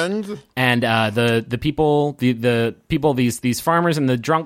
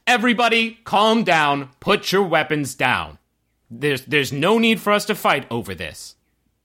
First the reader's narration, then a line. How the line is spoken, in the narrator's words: he yells with a booming voice